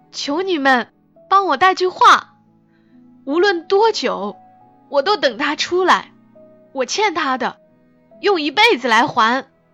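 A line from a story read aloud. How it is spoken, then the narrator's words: Shouting. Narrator (Chinese): 他朝我们喊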